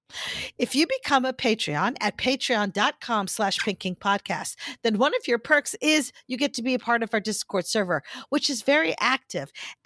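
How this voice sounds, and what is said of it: Serious advertising-style voice. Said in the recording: “my serious advertising voice ... my serious voice”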